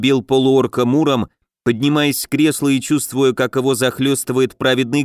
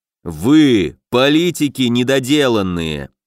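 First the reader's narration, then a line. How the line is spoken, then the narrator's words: Growled. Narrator (Russian): прорычал Илья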